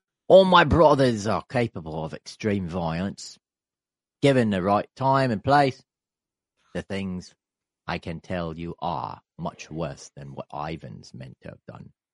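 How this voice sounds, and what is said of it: Put-on Australian accent. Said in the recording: “should I do it in an Australian accent? ... Yeah, do it in Australian. You did such a good job with that.”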